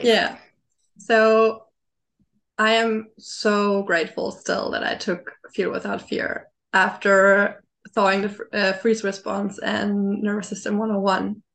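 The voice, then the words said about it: Rough voice from a cold. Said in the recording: “I have a little cold, so my voice is a little rough.”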